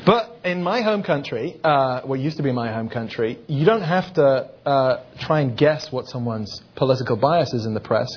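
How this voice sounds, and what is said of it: Foreign accent. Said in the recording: “as you can tell from my accent, I'm not actually from here”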